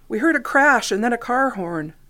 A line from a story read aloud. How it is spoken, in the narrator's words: the woman exclaimed